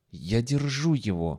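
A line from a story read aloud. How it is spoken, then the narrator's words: Breathless whisper. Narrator (Russian): задыхаясь, прошептал Шварц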